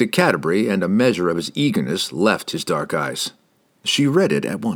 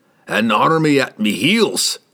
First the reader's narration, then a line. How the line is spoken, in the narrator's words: snorted Brunner